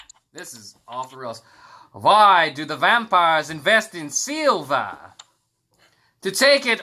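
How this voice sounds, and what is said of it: Usual voice. Nothing is said of it.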